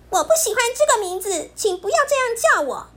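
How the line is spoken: Angry, loud. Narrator (Chinese): 熊豆豆很生气，他大声的对皮皮说

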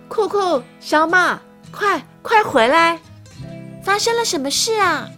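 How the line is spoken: Loud calling mother. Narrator (Chinese): 传来妈妈大声的叫唤

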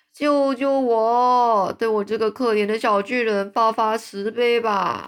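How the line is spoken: Giant screaming. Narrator (Chinese): 吞食巨人又开始尖叫着

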